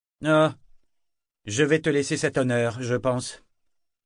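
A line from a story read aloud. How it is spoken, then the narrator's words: Curt reply. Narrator (French): répondit Kenneth sèchement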